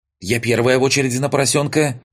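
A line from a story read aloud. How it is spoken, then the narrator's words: Shouted out. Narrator (Russian): выкрикнула в канале сестра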